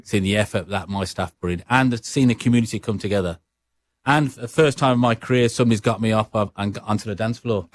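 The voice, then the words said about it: Brummie English accent. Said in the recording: “your accent ... a Brummie accent”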